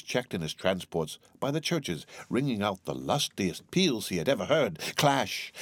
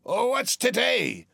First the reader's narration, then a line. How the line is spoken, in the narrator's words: cried Scrooge, calling downward to a boy in Sunday clothes